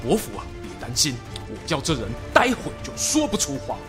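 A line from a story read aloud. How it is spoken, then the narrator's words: Low voice. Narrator (Chinese): 太史慈呢，悄悄靠近他身边，低声说了句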